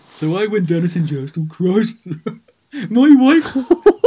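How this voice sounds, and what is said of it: Imitates another person's voice. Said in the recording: “you do a really good Jeffro impression”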